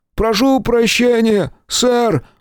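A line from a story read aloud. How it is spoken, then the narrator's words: Shouted. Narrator (Russian): выкрикнул лысый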